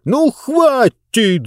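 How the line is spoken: Shout. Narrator (Russian): закричал Мурготроид

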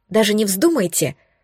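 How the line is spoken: Indignant gasp, blurted. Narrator (Russian): возмущенно вдохнув, выпалила я

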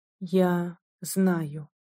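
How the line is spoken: Very quiet young man. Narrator (Russian): сказал молодой адвокат очень тихим голосом

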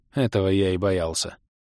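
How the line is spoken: Cold, calm young man. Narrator (Russian): холодно-спокойно ответил чужой парень

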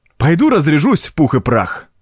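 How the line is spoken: Exclaiming. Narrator (Russian): воскликнул Дезире

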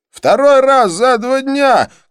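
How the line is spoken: Shout after someone. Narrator (Russian): крикнул Хорст мне вслед

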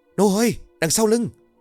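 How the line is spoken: Startled shout. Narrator (Vietnamese): giật nảy mình rồi hét

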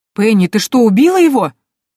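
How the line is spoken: Exclamation. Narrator (Russian): воскликнул Банч

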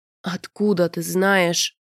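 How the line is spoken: Groan. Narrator (Russian): простонал рианец

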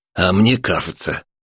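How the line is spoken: Ugly lisp. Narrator (Russian): один из них отвратительно шепелявил

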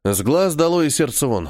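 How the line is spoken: Snorting. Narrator (Russian): хмыкнул

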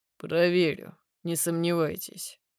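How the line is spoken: Gloomy male voice. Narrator (Russian): отзывается мужчина мрачно

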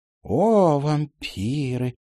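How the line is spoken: Dreamy drawl. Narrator (Russian): еще мечтательнее протянула мисс Отвертка

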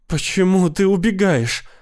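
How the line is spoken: Sobbing. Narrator (Russian): рыдала она

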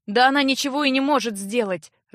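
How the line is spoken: Upset snap. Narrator (Russian): расстроенно огрызнулся Джар

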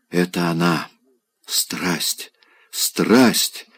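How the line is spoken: Sobbing whisper. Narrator (Russian): шептал он, рыдая

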